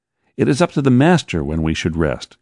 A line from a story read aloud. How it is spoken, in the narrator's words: cried John, my dear friend